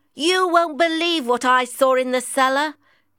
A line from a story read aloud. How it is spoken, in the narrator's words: shouted